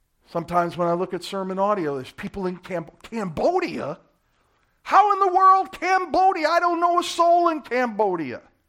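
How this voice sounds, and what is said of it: Brooklyn accent. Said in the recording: “that pastor in Orlando with that Brooklyn accent”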